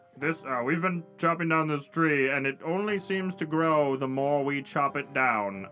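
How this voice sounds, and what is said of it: Character voice, deliberately lower pitch. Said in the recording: “I need to do a lower voice.”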